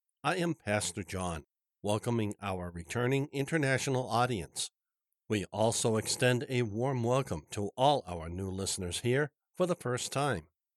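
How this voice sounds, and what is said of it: Congested, stuffy-nosed voice. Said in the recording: “my voice is a bit different because I'm a bit congested ... Please forgive me for not sounding as I normally do.”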